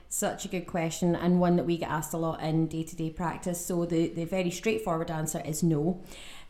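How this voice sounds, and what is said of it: Slightly Scottish-sounding accent. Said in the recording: “based out of the Ulster in Northern Ireland. However, she has a very deceiving accent. ... A wee bit Scottish.”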